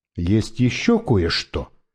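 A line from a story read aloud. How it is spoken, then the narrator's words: Plain. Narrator (Russian): сказал я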